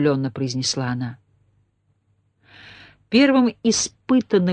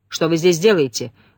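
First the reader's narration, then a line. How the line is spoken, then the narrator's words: Rude question in English. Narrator (Russian): грубо спросил ее Сулейман по-английски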